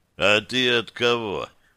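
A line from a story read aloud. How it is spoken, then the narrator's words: Hoarse. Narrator (Russian): спросил он хрипло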